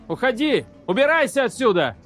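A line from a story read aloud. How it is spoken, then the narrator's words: Shouted. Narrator (Russian): закричал Колли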